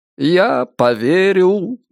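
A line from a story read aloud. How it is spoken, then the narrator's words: Cheerful singsong. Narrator (Russian): весело пропел Ричард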